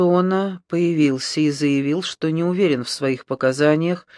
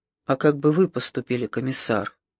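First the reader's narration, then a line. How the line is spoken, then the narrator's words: Mutter. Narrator (Russian): пробормотал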